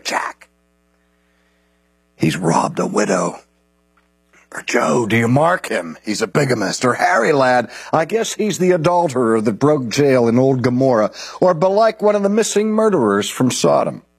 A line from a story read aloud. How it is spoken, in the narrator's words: In their gamesome but still serious way, one whispers to the other